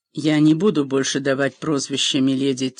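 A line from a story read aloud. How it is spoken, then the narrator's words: Quiet. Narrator (Russian): тихо произнесла Клинис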